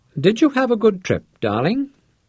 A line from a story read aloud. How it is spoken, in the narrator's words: Santaine asked sweetly